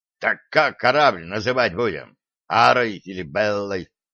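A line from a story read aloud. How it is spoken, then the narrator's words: Plain. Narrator (Russian): спросил гном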